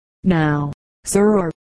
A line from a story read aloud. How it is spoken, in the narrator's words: said the damsel